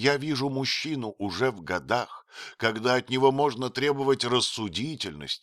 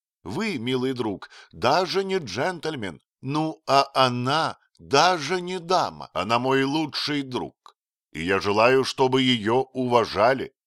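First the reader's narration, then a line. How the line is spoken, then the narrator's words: Plain. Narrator (Russian): сказал Отто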